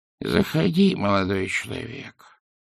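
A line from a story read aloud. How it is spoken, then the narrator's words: Quavering old voice. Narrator (Russian): произнес дребезжащим старческим голосом сидящий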